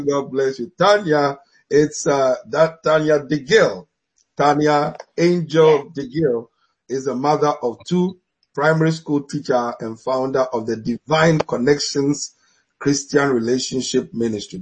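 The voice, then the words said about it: African-accented English. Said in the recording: “My African accent is betraying me.”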